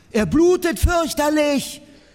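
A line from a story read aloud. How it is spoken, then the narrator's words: Shouted. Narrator (German): schrie Bertie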